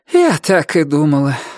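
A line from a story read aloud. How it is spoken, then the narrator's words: Sighing. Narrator (Russian): вздохнула Флора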